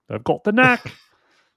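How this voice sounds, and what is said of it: Put-on Australian accent. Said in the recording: “Nice Australian accent there.”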